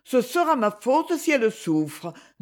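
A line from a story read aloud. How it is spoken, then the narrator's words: Distressed tone. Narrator (French): dit-elle d'un ton désolé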